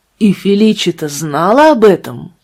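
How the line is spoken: Exclaiming. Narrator (Russian): воскликнул каноник Паскаль

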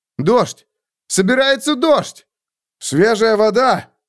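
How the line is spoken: Shout. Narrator (Russian): крикнул копьеносец

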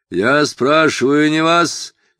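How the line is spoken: Fierce bark. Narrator (Russian): свирепо рявкнул офицер

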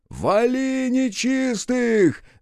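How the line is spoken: Bellowing yell. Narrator (Russian): заорал Рух благим матом

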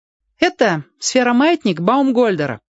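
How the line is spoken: Loud, echoing. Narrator (Russian): громко сказал Сёга, и голос его разнесся в оба конца коридора

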